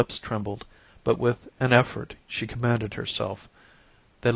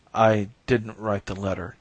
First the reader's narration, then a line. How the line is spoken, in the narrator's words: repeated hoarsely